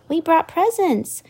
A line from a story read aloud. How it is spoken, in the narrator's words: Ariel's sister Aquata shouted